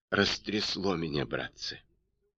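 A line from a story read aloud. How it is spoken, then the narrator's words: Groaning through gritted teeth. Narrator (Russian): со стоном выдавил сквозь зубы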